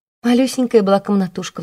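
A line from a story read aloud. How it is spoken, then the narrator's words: Sighed. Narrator (Russian): вздохнула Марфа Степановна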